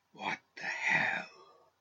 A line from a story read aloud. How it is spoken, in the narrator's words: whispered